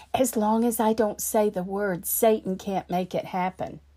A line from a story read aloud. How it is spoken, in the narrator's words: again she whispered